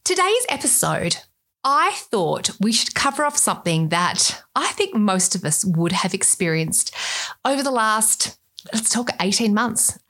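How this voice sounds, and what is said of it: Australian accent. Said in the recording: “with my accent, you can tell I'm Australian”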